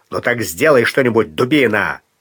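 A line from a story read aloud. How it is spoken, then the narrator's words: Angry bark. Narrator (Russian): озлясь рявкнул Бангал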